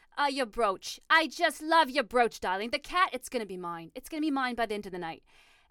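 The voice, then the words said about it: Prim posh English-Boston accent. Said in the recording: “had a really good accent. She was more of like a Martha Stewart ... prim and proper ... that kind of went a little English ... It went Boston”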